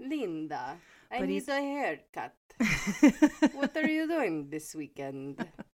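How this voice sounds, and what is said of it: Italian accent, Dracula-like voice. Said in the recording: “he's a little Italian man ... his accent because he's so funny ... He literally sounds like Dracula.”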